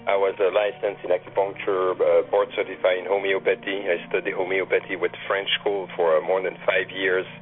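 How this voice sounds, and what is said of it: Noticeable non-native accent. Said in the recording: “you probably recognize an accent here, I'm born in Canada”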